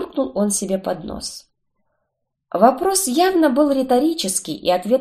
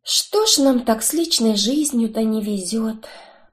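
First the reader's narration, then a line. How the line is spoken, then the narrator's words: Sighing. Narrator (Russian): вздохнула я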